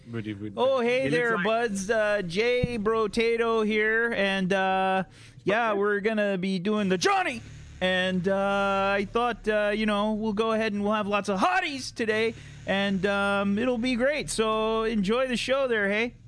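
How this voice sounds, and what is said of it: Put-on Canadian accent. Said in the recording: “Who can do the best Canadian accent? ... I think ... with the Canadian accent doing best.”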